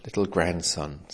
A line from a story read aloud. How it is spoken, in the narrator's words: said the old man, sighing heavily